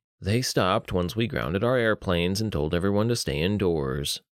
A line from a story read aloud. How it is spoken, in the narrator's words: Rhodes sighed